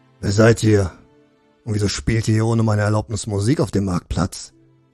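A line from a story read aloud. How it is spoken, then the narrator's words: Brusque. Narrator (German): begann Wolte barsch das Gespräch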